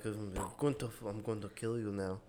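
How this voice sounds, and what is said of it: Poor put-on German accent. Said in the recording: “That's a terrible German accent.”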